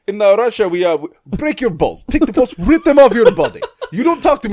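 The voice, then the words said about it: Put-on Russian accent, intimidating. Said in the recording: “use a Russian accent with your threat ... it is so commanding and intimidating”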